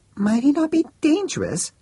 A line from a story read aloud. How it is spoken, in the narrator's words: said the friend, looking at Max nervously